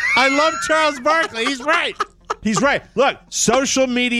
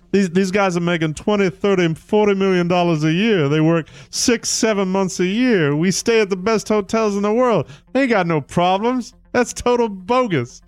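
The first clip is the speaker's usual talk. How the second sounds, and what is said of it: Charles Barkley impression. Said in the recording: “Charles Barkley, I'll do my Charles impression.”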